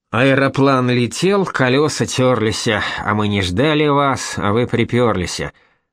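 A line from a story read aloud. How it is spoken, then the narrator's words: Grumbling. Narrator (Russian): проворчал Казначеев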